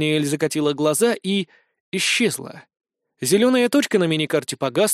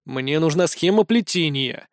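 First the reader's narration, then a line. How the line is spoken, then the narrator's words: Irritated reply. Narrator (Russian): раздраженно ответил ей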